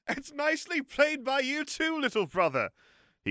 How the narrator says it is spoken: he called out across the hall with the appearance of good cheer

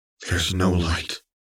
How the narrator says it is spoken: they whispered to one another

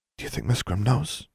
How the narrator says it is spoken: She asked quietly

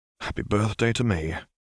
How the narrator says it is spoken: Harry muttered

